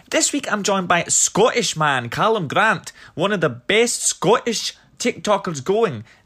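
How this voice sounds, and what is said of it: Poor put-on Scottish accent. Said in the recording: “That was my terrible Scottish accent”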